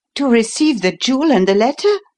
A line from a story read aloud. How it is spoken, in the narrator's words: eagerly